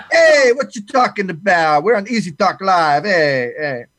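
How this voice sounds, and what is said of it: Put-on Italian accent. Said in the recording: “I'm going to do my best Italian accent”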